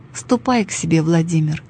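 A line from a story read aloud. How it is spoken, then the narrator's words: Calm. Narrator (Russian): спокойно сказала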